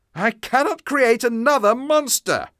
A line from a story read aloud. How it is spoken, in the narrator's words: shouted